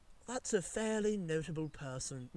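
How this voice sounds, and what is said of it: Poor put-on English nerd accent. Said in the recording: “an English nerd accent ... No! Oh, garbage! ... I clearly have no idea”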